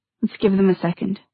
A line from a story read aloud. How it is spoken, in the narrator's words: she said softly